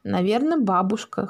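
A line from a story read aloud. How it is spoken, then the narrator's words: Father's snort. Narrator (Russian): хмыкнул папа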